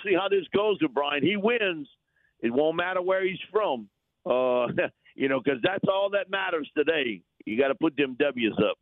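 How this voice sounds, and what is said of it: Regional accent. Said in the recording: “I just love the accent. Just love it.”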